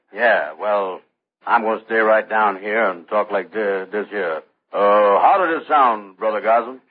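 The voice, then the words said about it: Very low-pitched voice with put-on dialect. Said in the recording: “You can get your voice down pretty low ... Get down lower ... See if you can put a little dialect in it ... Sounds great. Now, you hold that voice”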